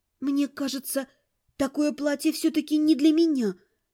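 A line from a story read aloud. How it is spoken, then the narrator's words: Timid. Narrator (Russian): робко сказала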